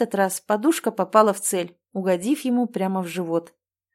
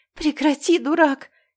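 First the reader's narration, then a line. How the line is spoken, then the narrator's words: Breathless exhale. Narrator (Russian): выдохнула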